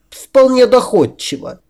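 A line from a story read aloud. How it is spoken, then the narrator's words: Scornful snort. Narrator (Russian): Адель, пренебрежительно фыркнув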